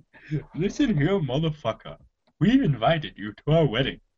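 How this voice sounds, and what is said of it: Imitates another person's voice. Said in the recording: “is awful... It's no good. No good... that's your only impression.”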